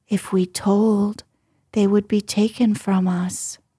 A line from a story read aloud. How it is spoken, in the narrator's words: said